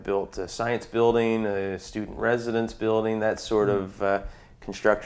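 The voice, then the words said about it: Slight Newfoundland accent. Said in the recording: “you are from Newfoundland ... I do still have a little bit of an accent”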